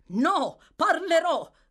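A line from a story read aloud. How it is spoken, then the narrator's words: Stranger's shout. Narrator (Italian): gridò lo sconosciuto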